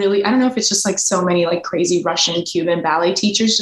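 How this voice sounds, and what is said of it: Usual voice. Nothing is said of it.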